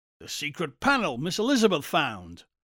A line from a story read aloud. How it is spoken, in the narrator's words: Buckner snapped